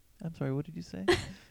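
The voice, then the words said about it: Norwegian accent. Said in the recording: “Norwegian accent”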